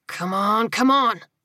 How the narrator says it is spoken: he grunted

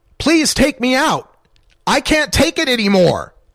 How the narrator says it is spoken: Darren Rainey screamed

